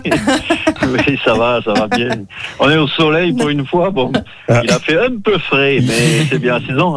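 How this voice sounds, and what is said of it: Regional Ardèche French accent. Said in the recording (French): “il a toujours le chapeau ardéchois sur la tête... n'y a pas que le chapeau, hein. on reconnaît l'accent aussi”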